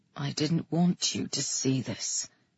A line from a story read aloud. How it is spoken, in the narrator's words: he said, his voice soft